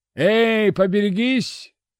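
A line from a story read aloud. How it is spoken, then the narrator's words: Shout. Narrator (Russian): крикнул он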